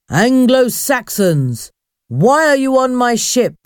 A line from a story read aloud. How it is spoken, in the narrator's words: the ghostly figure asked in a loud voice